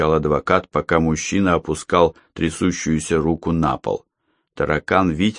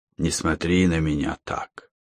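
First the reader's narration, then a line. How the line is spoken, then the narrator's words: Hoarse command. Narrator (Russian): хрипло приказал Дмитрий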